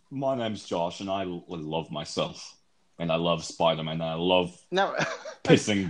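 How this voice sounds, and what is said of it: British accent imitating another person. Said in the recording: “how do you do a British accent? ... You just have to sound like you're better than America. ... It's like listening to a recording of myself ... You don't have to be me.”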